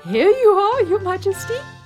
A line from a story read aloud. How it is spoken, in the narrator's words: he cried proudly